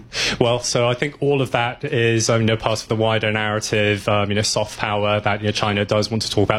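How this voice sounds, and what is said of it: British accent. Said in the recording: “Where'd you get your British accent?”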